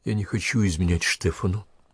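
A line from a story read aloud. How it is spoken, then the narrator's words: Quiet. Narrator (Russian): тихо сказала Наталья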